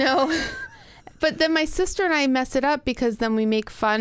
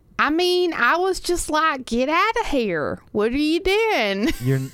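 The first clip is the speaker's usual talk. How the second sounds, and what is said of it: Weird, inaccurate put-on southern accent. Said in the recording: “we get into this weird, like, southern accent ... That's not even right. ... That's not how you do it.”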